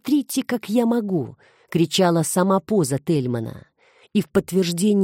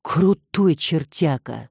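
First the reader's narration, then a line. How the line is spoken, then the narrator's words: Breathed out. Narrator (Russian): выдохнул Куликов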